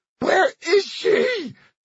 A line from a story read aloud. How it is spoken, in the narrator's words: she screamed again